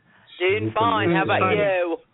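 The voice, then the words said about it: Put-on English accent. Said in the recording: “talking in that English accent”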